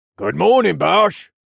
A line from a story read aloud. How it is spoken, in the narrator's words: Jax said in a gruff voice